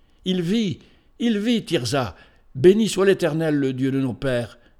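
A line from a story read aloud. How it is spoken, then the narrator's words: Exclaiming. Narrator (French): s'écria-t-il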